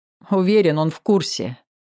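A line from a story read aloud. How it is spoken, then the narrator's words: Wry snort. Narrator (Russian): хмыкнул я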